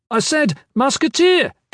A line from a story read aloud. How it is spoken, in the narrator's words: Kip shouted